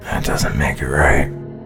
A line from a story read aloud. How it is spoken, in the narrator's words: muttered Brian